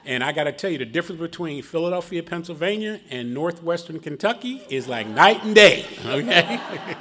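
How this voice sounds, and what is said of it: Philadelphia accent. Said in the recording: “If you can tell by my accent, I'm originally from Philadelphia, Pennsylvania.”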